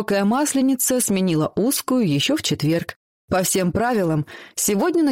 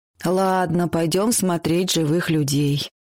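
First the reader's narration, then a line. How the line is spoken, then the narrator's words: Sigh. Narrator (Russian): вздохнула Ксюша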